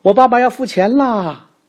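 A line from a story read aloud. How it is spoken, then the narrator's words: Loud shout. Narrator (Chinese): 我用店里所有人都能听到的声音叫了起来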